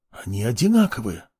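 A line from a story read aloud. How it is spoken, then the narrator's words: Man mumbling. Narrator (Russian): пробормотал мужчина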